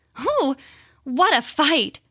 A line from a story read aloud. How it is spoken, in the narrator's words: she said, panting as though she were very tired